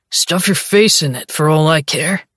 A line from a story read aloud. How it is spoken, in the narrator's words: growls